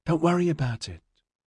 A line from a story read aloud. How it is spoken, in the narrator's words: Liz said soothingly